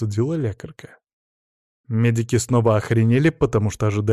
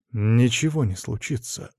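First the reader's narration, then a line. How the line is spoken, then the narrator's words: Calm now. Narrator (Russian): уже спокойно ответил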